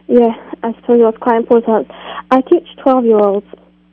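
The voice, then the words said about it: English accent. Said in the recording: “Based on the accent, are you calling from England?”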